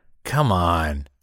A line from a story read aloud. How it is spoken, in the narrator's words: The well-dressed man sighed with a hint of annoyance